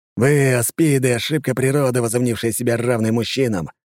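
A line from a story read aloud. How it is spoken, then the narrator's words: Hissed. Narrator (Russian): прошипел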